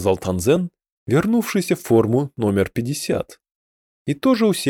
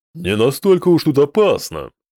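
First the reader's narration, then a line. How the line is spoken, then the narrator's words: Cheerful snort. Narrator (Russian): весело фыркнул Мерзопак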